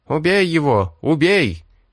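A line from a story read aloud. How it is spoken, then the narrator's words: Ferocious crowd shouting. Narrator (Russian): кричали саргалийцы, в которых проснулась свирепость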